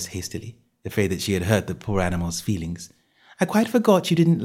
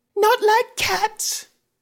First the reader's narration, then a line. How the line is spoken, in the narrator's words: cried the mouse in a shrill, passionate voice